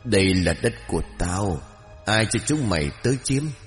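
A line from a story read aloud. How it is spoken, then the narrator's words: Hoarse smiling whisper. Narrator (Vietnamese): Người đàn bà kia từ từ mỉm cười, rồi cất giọng thì thầm khàn khàn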